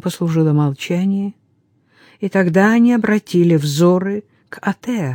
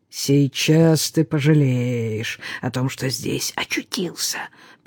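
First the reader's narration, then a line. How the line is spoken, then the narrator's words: Hiss. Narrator (Russian): прошипел один из них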